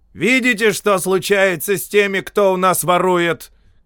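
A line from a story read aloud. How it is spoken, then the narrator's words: Shouted to crowd. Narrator (Russian): крикнул капитан, обращаясь к толпе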